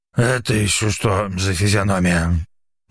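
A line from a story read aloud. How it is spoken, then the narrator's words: Sudden rasp. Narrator (Russian): Неожиданно прохрипел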